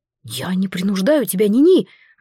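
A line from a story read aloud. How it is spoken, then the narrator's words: Heated exclamation. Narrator (Russian): воскликнул Горан запальчиво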